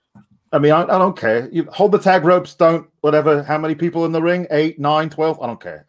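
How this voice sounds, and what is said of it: Pete Dunne accent impression. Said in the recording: “Can ... do the Pete Dunne accent for a little?”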